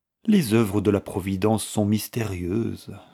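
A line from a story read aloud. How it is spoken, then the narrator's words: Sighing. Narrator (French): soupira la veuve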